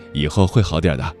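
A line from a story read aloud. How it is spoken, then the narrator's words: Faint smile. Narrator (Chinese): 他淡淡一笑，说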